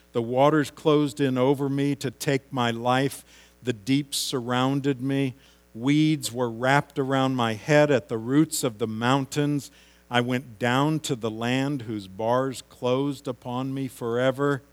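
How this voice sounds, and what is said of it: Reading aloud at a fast pace. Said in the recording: “I'm reading this quickly”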